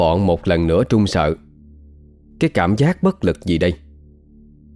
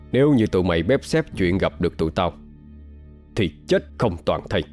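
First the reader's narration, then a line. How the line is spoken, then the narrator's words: Harsh stressed voice. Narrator (Vietnamese): gằn giọng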